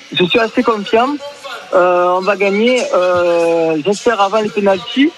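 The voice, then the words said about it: Strong regional French accent. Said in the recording (French): “ça c'est plus un accent qu'on attendait”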